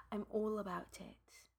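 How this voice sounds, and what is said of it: Put-on British accent. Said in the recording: “Why are you using a British accent right now?”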